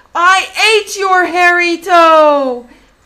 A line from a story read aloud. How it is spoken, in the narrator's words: The old woman sat upright in terror and shouted